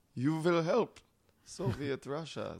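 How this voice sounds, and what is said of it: Attempted Russian accent. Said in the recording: “I can't do a Russian accent.”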